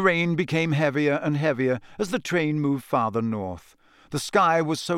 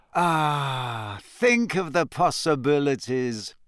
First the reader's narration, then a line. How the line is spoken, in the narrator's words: said Ron dreamily